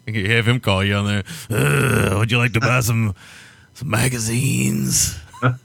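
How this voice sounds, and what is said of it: Imitates another person's voice. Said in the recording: “Hard to do a Nick Nolte impersonation. That guy speaks like no other.”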